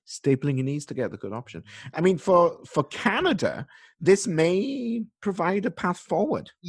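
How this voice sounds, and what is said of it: Noticeable accent coming back. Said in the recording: “your becoming accent ... it's definitely coming back a little bit”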